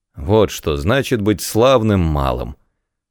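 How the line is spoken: Grumbling. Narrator (Russian): проворчал Кит

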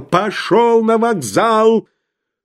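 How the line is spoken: Shouted with all might. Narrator (Russian): Толмудовский что из силы, закричал

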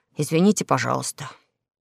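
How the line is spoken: Quiet. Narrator (Russian): тихо сказал

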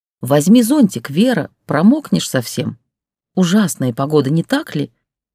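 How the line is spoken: Melodious, overly correct announcer voice. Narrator (Russian): Она говорила мелодичным голосом, как дикторша из телевизора, и притом слишком правильно, тоже как дикторша

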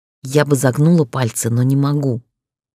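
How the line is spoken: Spoken through clenched teeth. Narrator (Russian): процедила ему в лицо

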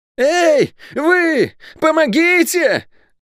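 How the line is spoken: Deafening scream. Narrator (Russian): Оглушительно завопил Лук

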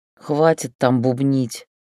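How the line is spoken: Grumbled. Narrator (Russian): проворчала я

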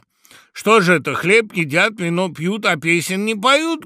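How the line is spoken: Sudden shout, raven. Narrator (Russian): крикнул вдруг ворон

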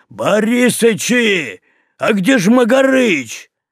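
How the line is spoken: Yelling. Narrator (Russian): Пахомыча, который орал

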